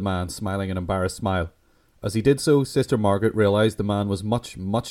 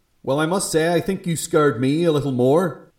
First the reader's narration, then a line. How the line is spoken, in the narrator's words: Sister Margaret said, her tone unsympathetic and scolding